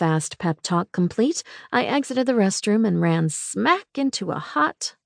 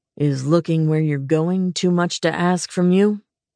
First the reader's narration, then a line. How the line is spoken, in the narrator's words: Lucian said gruffly